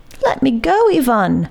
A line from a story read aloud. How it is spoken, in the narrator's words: cried Simon